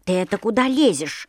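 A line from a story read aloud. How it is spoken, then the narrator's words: Grumbling little shoe. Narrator (Russian): заворчал башмачок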